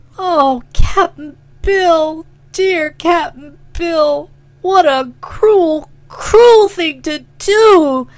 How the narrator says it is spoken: she sobbed

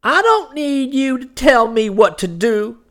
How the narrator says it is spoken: cried the infuriated woman

